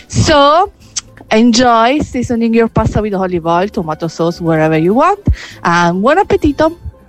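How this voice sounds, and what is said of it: Italian accent. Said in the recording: “I adore the Italian accent.”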